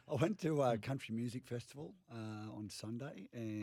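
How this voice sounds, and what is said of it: Rusty, husky voice. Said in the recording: “I got a little bit of a rusty voice ... rusty you got that husky, voice. You got that husky”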